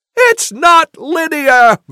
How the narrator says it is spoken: Wilhelm shouts

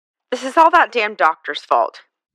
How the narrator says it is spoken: Pat grumbled

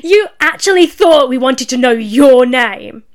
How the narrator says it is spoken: The shout

